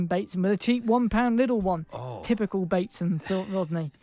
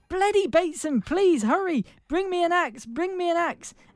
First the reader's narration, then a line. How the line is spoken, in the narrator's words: Rodney Jack called out